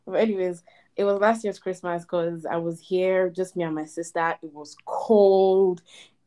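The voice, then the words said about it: Breathless, out-of-breath speech. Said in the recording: “my heart is beating at, like, I'm out of breath and I'm just sitting on my bed”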